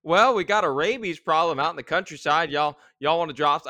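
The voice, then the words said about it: Put-on Southern US accent. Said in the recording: “that's not a Swiss accent ... I will make a Southern accent”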